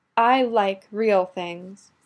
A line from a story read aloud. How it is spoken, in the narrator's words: Shiori sighed